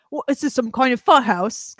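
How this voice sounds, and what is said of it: Imitates a film character's accent. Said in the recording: “Because that's his accent.”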